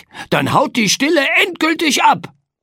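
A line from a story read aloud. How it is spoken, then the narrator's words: Calling out. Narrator (German): rief Frederik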